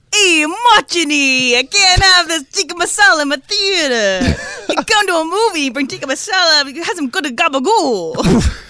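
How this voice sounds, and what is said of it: Exaggerated New Jersey Italian accent. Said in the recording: “Jersey impression ... It sounds like a bad Super Mario Brothers impression.”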